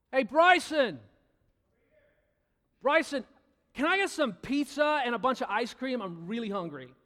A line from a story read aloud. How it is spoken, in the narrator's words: I yell out and I say